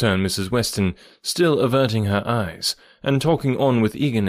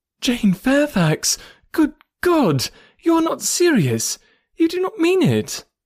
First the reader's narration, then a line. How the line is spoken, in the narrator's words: Emma with surprise, and horror-struck exclaimed